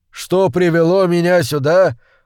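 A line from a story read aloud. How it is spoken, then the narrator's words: Bitter laugh. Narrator (Russian): Он снова горько рассмеялся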